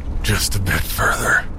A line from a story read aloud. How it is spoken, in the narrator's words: he breathed